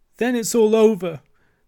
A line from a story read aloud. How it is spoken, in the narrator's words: sobbed the toad, crying into the sofa cushions